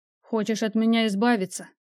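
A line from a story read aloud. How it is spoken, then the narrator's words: Grim smirk. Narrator (Russian): мрачно усмехнулся он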